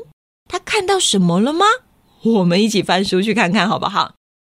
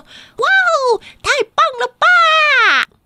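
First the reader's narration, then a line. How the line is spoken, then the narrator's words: Sudden loud exclamation. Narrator (Chinese): 突然听到它很大声的说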